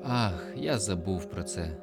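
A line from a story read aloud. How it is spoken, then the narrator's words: Sighing. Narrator (Ukrainian): зітхнув Доржанов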